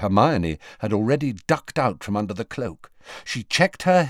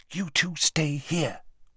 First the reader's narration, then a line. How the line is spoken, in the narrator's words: whispered Hermione